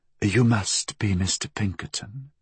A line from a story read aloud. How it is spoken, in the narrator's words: she said, in a throaty murmur